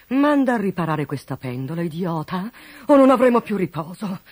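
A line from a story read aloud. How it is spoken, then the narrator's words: Duke grumbling. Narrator (Italian): brontolò il duca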